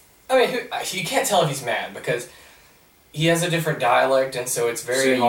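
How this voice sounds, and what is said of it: Usual voice. Nothing is said of it.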